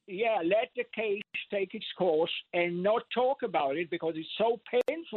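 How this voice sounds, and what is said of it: Slight accent. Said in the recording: “I detect a slight accent.”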